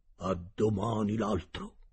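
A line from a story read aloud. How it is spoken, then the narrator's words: Cook's low voice. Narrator (Italian): il cuoco disse a bassa voce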